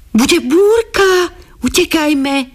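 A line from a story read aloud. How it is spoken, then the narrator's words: Children shouting. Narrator (Slovak): kričali deti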